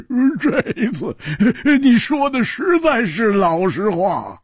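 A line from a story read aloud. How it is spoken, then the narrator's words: Hearty laughter. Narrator (Chinese): 老实和尚大笑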